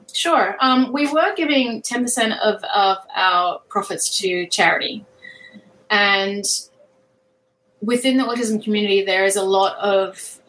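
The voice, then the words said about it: Heavy Australian accent. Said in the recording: “I'm mumbling it because I have a heavy Australian accent.”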